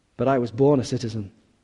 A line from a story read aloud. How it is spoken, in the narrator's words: Paul replied